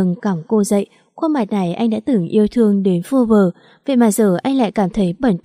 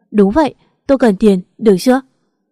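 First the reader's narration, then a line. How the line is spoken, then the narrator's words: Anguished humiliated scream. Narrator (Vietnamese): Nỗi đau đớn nhục nhã khiến cô không còn giữ được lý trí, liền gào lên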